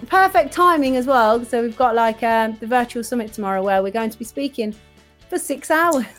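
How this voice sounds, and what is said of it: Voice strained by sore throat. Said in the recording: “I've got a bit of a sore throat, you can probably hear, the listeners can probably hear the sore throat.”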